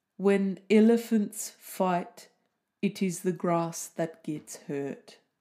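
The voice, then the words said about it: Put-on South African accent. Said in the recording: “That's pretty much all I can do in a South African accent ... I did this saying once in a South African accent”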